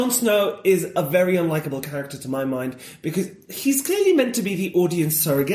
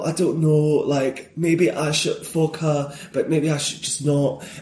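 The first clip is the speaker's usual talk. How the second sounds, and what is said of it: Put-on Yorkshire accent. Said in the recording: “I had a teacher who was from Yorkshire, so I can do the accent really well.”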